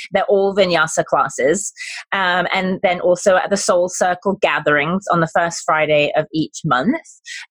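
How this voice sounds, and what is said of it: British accent. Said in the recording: “my British accent, sometimes I feel like people don't understand what I'm saying. I'm not saying comma, I'm saying karma.”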